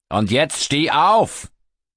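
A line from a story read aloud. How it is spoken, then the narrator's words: Bellowing down at someone. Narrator (German): Walter brüllt ihn von oben herab an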